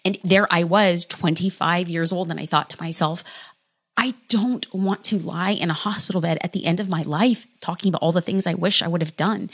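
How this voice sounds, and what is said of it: Emotional, slightly choked voice. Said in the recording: “brings a little bit of emotion to my voice”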